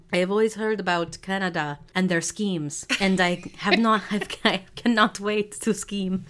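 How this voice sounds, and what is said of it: Put-on Syrian accent, not great. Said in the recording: “That was my Syrian accent. It's not great. ... It was beautiful.”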